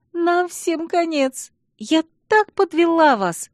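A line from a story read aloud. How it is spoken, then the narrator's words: Friend sobbing. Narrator (Russian): всхлипывала подруга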